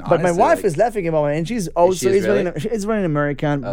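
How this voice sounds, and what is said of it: Israeli accent in English. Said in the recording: “I'm still stuck with the accent ... We grew up in Tel Aviv”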